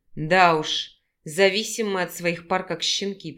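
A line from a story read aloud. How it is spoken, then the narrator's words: Grumble. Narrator (Russian): пробурчал Санаров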